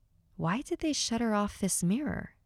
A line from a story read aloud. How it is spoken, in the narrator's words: asks Isaac